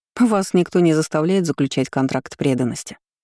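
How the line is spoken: Displeased snort. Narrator (Russian): фыркнула недовольно

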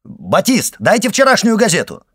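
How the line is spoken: Shouting. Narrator (Russian): крикнул Башан

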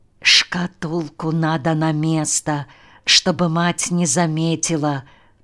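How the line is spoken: Whisper. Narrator (Russian): прошептал он

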